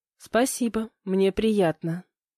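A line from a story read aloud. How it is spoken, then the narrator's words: Quiet reply. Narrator (Russian): так же тихо ответила я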